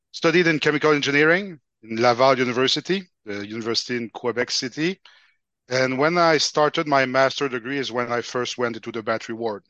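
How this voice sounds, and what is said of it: Quebec French accent. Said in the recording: “from the accent, you can guess I'm from Quebec, so I'm a French-speaking person”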